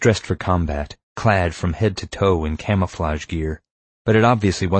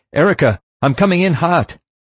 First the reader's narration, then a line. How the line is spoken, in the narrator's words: I shouted into my radio headset